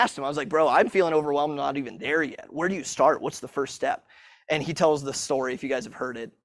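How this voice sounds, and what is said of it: Usual voice. Nothing is said of it.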